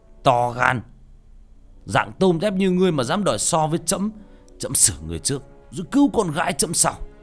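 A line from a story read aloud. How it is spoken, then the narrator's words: Shouting. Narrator (Vietnamese): Ca Lâu Vương liền hét lên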